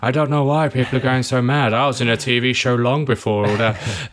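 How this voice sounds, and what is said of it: Imitates another person's voice. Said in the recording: “my terrible Trump impression”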